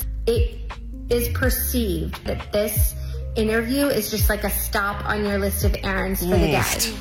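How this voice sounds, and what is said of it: American accent. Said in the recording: “If you couldn't tell by the accent ... American, very, oh, yeah. very American.”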